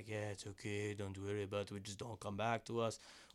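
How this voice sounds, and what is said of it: Put-on foreign accent, possibly Spanish. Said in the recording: “foreign? ... No, you're Spanish. Spanish. ... This is me doing an accent for somebody that's not myself. I just don't want it to sound like me.”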